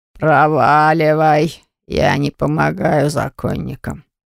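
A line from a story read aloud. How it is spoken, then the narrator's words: Rude answer, seller. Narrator (Russian): грубо ответил продавец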